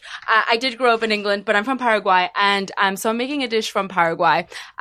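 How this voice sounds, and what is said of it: British accent. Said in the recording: “my accent obviously sounds British.”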